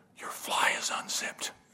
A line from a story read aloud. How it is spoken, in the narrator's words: he came over and he whispered in my ear